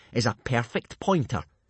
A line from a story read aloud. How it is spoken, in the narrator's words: sneered Snotlout